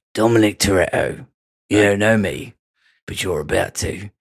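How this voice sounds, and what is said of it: Impression of an English man's voice. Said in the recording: “that English guy who ... you can do the good impression of... not bad”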